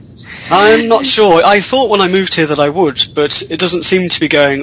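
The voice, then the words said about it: British accent. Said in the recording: “I am originally from the UK ... lose your accent in Tennessee”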